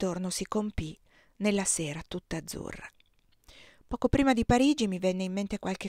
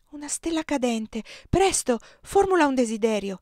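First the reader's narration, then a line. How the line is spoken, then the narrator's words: Exclaimed. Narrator (Italian): esclamò Giulia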